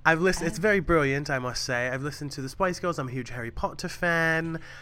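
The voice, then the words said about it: Put-on British accent. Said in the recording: “my British accent is very well”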